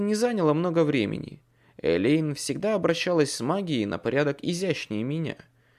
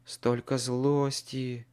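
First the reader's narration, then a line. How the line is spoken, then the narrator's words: Sighing. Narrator (Russian): вздохнула она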